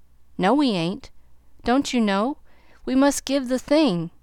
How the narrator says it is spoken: Tommy called out in a great hurry

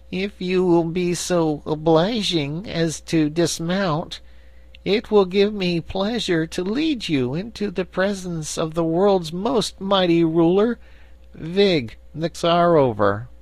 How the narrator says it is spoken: said in a sad voice

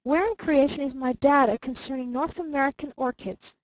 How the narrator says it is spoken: called her father sharply from the next room

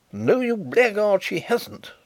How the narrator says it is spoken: wrathfully exclaimed his brother-in-law

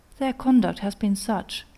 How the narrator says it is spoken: replied Elizabeth

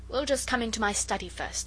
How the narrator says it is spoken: said the uncle

